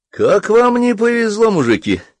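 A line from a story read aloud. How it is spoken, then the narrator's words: Cheerful. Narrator (Russian): весело сказал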